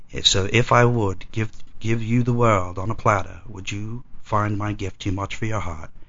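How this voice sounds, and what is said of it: British-sounding poetry reading voice. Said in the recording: “I hear a British accent? ... I was wondering if that was his reading voice. Hello, this is my poetry voice”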